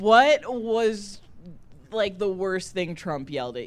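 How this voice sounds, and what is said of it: Usual voice. Nothing is said of it.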